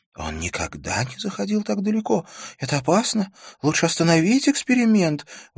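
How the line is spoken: Female exclamation. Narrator (Russian): воскликнула ассистентка

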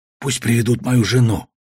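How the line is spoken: Whisper. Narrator (Russian): шепнул я Аркане

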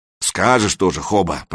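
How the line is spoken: Grumbled. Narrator (Russian): проворчал Фрам

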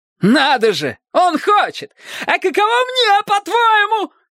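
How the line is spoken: Shouting, cracking into falsetto. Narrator (Russian): кричал Бристоу, срываясь на фальцет

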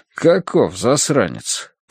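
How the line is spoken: Gloomy man grumbling. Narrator (Russian): проворчал полный мужчина с мрачным взглядом

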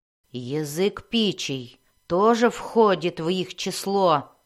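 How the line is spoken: Growling at the door. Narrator (Russian): прорычала двери Белвар

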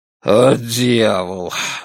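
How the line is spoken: Muttering. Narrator (Russian): бормочет Дон

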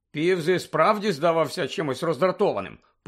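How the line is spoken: Gloomy grumble. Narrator (Ukrainian): похмуро буркнув Рон

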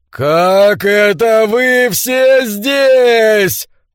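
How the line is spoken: Roar. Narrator (Russian): проревел он

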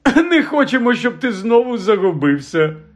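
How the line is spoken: Laughing. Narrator (Ukrainian): розсміявся Фадж

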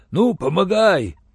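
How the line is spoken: Relieved exhale, older man. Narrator (Russian): Облегченно выдохнул пожилой алтаец

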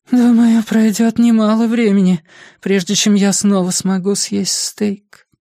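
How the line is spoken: Sighing. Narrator (Russian): вздохнула Джинни

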